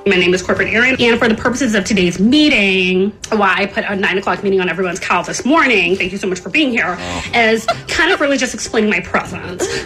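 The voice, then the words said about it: Corporate Zoom-meeting speaking voice. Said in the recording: “how corporate people sound in corporate accents specifically Zoom meetings ... That's a corporate accent ... exactly spot on”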